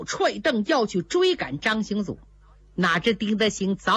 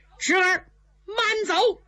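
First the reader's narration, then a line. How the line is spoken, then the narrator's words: Loud shout. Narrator (Chinese): 胡奎在马上高声喝道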